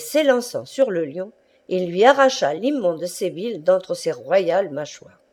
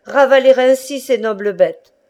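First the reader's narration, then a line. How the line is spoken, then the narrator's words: Thunderous shout. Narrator (French): cria-t-il d'une voix de tonnerre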